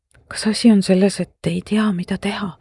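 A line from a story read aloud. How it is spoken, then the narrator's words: Meaningful whisper. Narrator (Estonian): sosistasin marglikult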